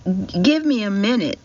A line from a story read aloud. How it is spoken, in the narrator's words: Casey stammers out